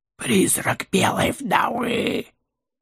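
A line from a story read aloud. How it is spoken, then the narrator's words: Hoarse. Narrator (Russian): хрипло выдал кто-то из шакалов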